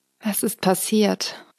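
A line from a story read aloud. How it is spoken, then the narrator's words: Deep velvety female voice. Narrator (German): fragte sie mit ihrer samtenen Stimme, tief für eine Frau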